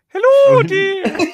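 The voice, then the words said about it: Mrs. Doubtfire character voice. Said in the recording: “Mrs. Doubtfire ... that was the accent I was going to use.”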